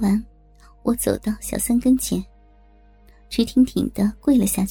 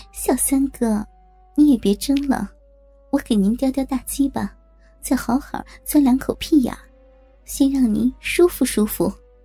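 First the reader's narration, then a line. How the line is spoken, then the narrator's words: Smiling. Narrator (Chinese): 笑着说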